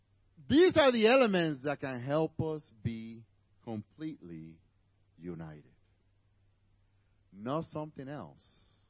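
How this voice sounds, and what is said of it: Spanish-accented English. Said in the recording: “my Spanish and English gets all messed up sometimes. Sorry for bearing with my accent.”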